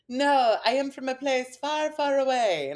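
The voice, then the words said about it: Imitated unfamiliar foreign accent. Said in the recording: “in this very different accent that I didn't recognize”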